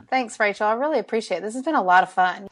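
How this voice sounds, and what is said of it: Southern drawl, Alabama accent. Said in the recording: “my southern drawl ... I love your Southern drawl. I have to say, I've never met anyone from Alabama.”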